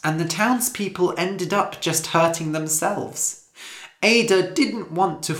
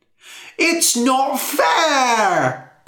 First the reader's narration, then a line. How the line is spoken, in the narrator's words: cried a woman